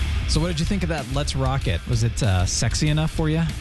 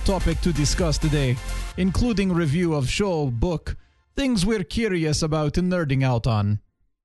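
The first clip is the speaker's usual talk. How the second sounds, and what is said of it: Bad put-on Russian accent. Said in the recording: “your normal accent ... We do entire show with Russian accent ... that was a terrible accent.”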